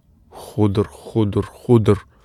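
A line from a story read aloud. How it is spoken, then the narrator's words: Repetitive muttering. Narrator (Russian): Ходор бормотал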